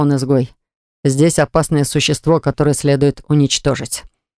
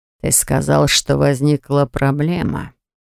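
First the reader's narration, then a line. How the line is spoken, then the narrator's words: Hissed. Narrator (Russian): прошипел Росс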